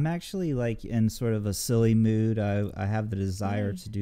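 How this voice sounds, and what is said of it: Usual voice. Nothing is said of it.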